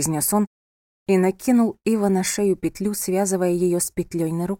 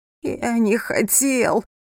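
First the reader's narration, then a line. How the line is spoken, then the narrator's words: Moaning. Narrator (Russian): простонал Ива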